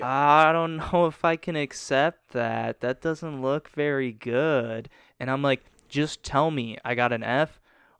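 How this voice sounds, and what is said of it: Condescending imitation of a teacher. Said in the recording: “best Poissons impersonation ... the way he said that, his tone and everything”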